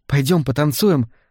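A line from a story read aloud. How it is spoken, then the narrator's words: Enthusiastic exclamation. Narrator (Russian): с энтузиазмом воскликнула она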